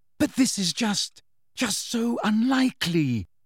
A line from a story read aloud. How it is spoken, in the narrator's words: said Hermione desperately